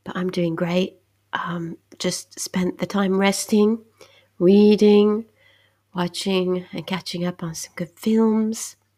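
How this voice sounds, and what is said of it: Voice sounds congested from a cold. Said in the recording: “as you can hear, I have a little cold”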